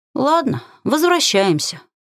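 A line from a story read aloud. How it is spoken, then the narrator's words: Sorrowful weary sigh. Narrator (Russian): горестно вздохнула, представив, сколько еще тащить на себе тяжелый гримуар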